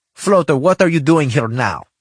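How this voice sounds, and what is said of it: Thick Russian accent. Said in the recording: “It was painted thickly with a Russian accent.”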